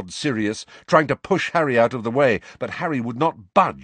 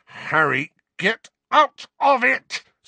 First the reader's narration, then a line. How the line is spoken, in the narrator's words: snarled Sirius